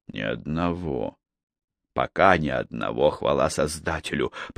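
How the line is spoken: Relieved mutter. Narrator (Russian): пробормотал он своему раздражению весь в поту от облегчения, что легкая краснота на шее оказалась всего лишь укусом насекомого

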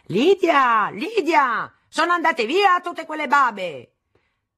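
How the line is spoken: Father yelling loudly. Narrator (Italian): dal suo studio mio padre urlava a gran voce

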